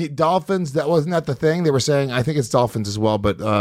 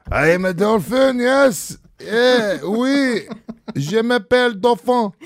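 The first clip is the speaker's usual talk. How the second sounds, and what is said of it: Put-on French accent. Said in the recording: “I can do a French accent pretty good.”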